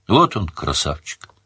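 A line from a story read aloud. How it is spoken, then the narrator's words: Quiet. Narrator (Russian): тихо сказала тетка Чари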